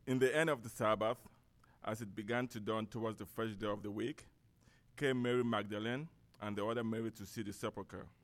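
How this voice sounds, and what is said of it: English with a Cameroonian accent. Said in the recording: “I'm going to read in English, but with a Cameroon accent to it”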